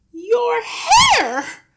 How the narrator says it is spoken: the mother was shrieking

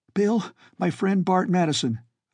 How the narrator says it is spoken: Van blurted, without pausing for breath

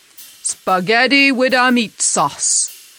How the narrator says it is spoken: the stout man ordered loudly

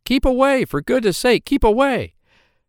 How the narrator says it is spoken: the others cried out

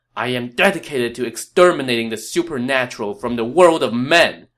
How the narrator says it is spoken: Sun Ce screamed

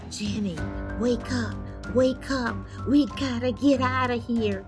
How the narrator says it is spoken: I whispered

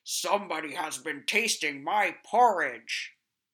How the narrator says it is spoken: the Big Bear went to his, he growled out

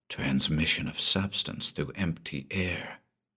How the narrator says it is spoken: he breathed

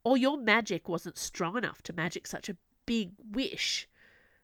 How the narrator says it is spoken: Jack snapped back

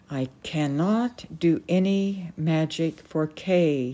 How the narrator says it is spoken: he said slowly

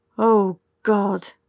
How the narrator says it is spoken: Eric said, groaning

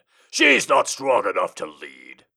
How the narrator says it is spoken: his father growled out, sounding like Sultan from Space Ghost

